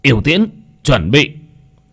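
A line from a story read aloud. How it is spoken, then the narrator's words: Loud commanding shout. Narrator (Vietnamese): Yêu tướng quát to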